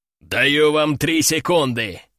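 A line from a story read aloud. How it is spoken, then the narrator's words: Growl, masked man. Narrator (Russian): прорычал мужик в черной маске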